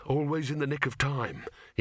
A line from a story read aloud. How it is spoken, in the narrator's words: he muttered